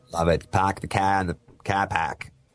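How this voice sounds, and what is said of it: Put-on Boston accent. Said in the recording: “波士顿的口音也是挺明显的对吧 ... The Boston accent.”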